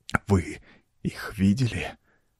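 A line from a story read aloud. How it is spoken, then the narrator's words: Dry broken whisper. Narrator (Russian): Сухим прерывистым шепотом осведомился он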